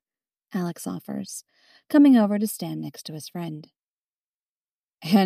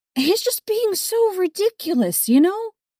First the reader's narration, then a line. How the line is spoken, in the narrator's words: Julie exclaims suddenly